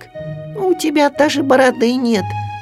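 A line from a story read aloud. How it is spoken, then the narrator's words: Squeaked. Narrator (Russian): пискнул Ру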